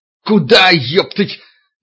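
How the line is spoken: Loud yell. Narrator (Russian): Витька заорал, созывая остальных

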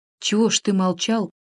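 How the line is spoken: Quiet, in his usual voice. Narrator (Russian): тихо проговорил он своим прежним голосом

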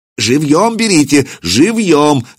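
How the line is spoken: Shouting. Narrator (Russian): закричал Семират

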